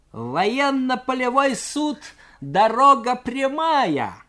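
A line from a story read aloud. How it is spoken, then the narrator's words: Mocking shout. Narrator (Russian): с усмешкой крикнул юнкер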